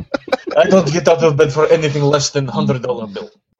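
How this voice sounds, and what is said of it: Put-on Russian accent. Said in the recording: “Why did you make him sound Russian?... apparently that's the only accent I can do.”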